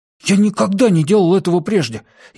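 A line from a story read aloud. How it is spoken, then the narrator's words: Frightened warning. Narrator (Russian): испуганно предупредил Кювей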